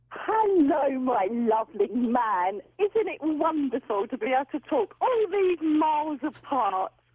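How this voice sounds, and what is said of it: English accent. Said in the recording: “you have such a delightful English accent”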